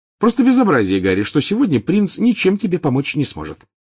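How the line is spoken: Cheerful. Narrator (Russian): весело сказала она

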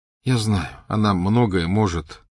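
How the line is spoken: Tired. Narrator (Russian): устало сказал Гарри

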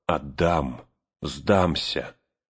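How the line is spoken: Hoarse, echoing, powerless. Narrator (Russian): гулкое эхо разносило над Авидом эту сиплую клятву бессилия

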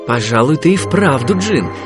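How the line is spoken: Plain. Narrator (Russian): сказал Аладдин

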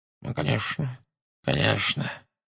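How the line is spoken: Muttering. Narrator (Russian): бормотал он

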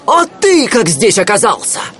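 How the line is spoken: Surprised exclamation. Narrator (Russian): воскликнул от удивления

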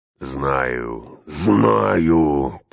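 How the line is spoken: Growled. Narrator (Russian): прорычал он

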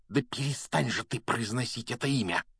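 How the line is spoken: Hissing. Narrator (Russian): прошипел Рон

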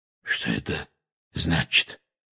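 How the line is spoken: Hoarse question, uncle. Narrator (Russian): хрипло спросил дядя Вернон

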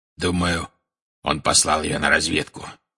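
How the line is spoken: Growled. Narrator (Russian): прорычал Грюм

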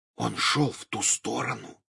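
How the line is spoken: Very quiet whisper. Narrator (Russian): как можно тише прошептал Гарри, чтобы не услышал Хагрид

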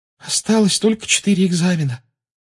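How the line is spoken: Tired. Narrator (Russian): устало сказала Парвати Патил

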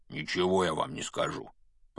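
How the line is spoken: Grumble. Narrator (Russian): пробурчал Хагрид

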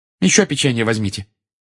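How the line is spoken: Irritated. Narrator (Russian): раздраженно сказала она

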